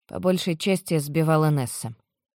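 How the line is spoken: Muttering. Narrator (Russian): бормочу я

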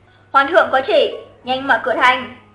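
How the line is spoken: Loud voice while running. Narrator (Vietnamese): Vừa nói vừa rất nhanh chạy tới trước cửa thành, cao giọng nói

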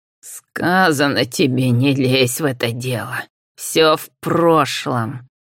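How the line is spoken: Hissed. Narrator (Russian): шипела Абразина

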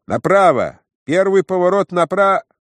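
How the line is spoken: Shouted. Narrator (Russian): Кто-то в уплывающих небесах, быть может, незамеченный сосед, крикнул

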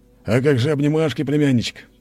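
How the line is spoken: Laughing. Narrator (Russian): засмеялся

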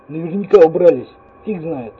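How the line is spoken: Grumbling. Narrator (Russian): снова пробурчал я

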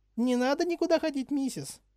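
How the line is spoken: Squeaky voice. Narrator (Russian): пропищала Винки

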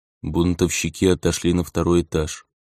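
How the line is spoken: Bored monotone. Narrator (Russian): тем же скучным голосом сказал он нам

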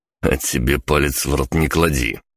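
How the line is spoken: Grumbling. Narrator (Russian): пробурчал я

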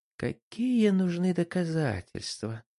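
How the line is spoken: Sigh. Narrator (Russian): вздохнул Джеймс

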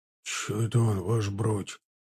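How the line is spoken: Whisper. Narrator (Russian): прошептал едущий рядом Чанов

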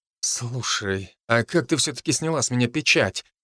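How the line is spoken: Quiet question. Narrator (Russian): тихо спросил я

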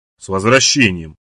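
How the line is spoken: Grumbled. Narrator (Russian): буркнула она

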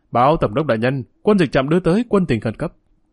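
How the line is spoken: Officer's loud report. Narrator (Vietnamese): một viên tướng lớn tiếng nói

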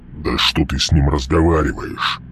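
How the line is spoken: Growled. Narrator (Russian): прорычал Мальп

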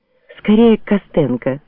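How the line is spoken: Whispering. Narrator (Russian): шептала она

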